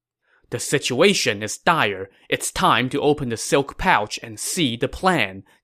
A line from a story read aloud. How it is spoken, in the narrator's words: Jiang Wei said